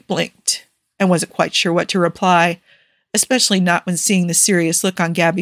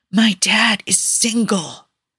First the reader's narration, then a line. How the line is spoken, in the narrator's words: Gabby … whisper in his ear